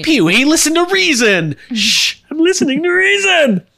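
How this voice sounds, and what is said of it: Imitates another person's voice. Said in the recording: “My Pee Wee Herman impression's pretty good.”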